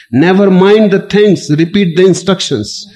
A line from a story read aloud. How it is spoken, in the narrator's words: the Berliner snatched furiously at the other's lapel and shouted